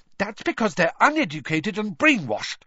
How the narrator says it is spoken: Hermione began hotly

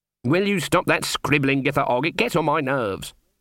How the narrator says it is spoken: snapped Granny

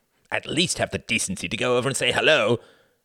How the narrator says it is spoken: he hissed venomously

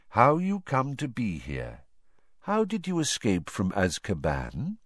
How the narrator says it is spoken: Crouch took a deep, shuddering breath, then began to speak in a flat, expressionless voice

